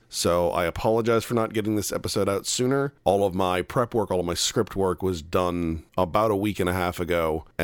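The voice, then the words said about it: Congested, sniffly voice. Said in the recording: “I sound a little congested, a little bit sniffly, this is about the best I've sounded in the last 2 weeks ... I have just been coughing up both of my lungs”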